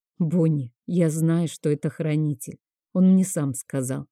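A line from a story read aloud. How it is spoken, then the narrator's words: Plain. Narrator (Russian): ответила я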